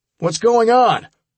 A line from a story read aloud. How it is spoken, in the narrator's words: I shouted to be heard over the wind